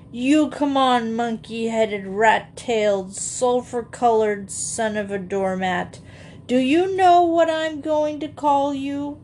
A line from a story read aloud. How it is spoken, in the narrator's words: I whined dolefully